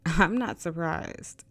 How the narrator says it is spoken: Rain said through a giggle

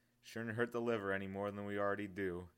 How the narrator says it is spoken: he chuckled

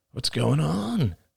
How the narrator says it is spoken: He mumbled

